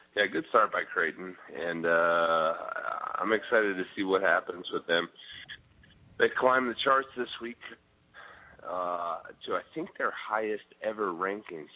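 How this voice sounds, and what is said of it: Scratchy, raspy throat. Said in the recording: “It sounds like you got kind of a scratchy throat going ... sexy radio voice”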